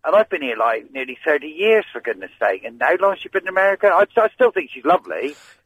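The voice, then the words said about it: Thick regional accent. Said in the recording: “You've got a very thick accent.”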